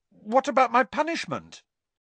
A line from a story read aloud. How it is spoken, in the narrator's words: blurted Harry